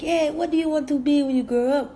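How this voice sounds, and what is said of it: Poor imitation of Jamaican accent. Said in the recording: “Sorry, my Jamaican accent is horrible.”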